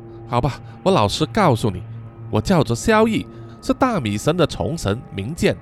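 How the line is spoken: Sighing. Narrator (Chinese): 萧逸叹了一口气，然后说

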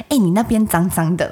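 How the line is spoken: Very quiet. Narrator (Chinese): 小小声的跟他说

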